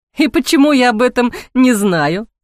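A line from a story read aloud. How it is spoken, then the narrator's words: Laughing question. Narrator (Russian): сквозь смех спросил Ник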